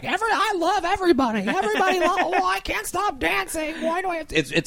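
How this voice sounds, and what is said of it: Imitates another person's voice. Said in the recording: “basically being Ellen ... doing a horrible impersonation”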